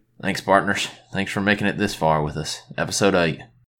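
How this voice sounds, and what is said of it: Put-on Western cowboy accent. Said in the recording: “In a Western, you got to do it in a Western accent”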